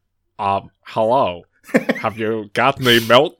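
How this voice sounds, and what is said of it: Exaggerated stereotypical white man voice. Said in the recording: “doing a funny white guy want? Voice. do your white man voice.”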